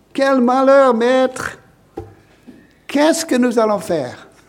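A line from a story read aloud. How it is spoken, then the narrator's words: Crying out. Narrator (French): Il crie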